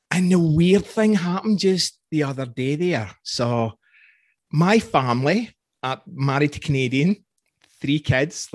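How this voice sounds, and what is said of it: Scottish accent. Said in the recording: “my accent ... It was some Scottish guy.”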